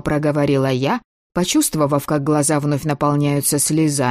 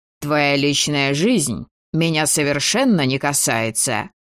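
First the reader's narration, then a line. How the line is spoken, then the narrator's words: Sudden stern interruption. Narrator (Russian): внезапно строго перебил меня невидимка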